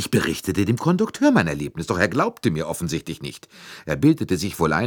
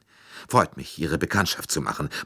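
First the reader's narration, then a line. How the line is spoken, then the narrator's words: Murmuring. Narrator (German): murmelte Mrs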